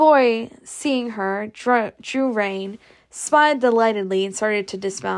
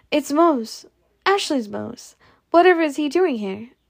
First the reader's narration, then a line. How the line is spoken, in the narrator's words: cried